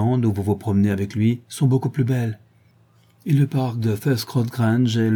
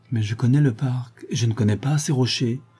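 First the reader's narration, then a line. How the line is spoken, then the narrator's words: Murmuring to herself. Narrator (French): murmura-t-elle en se parlant à soi-même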